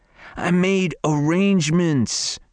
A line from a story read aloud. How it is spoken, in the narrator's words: he whined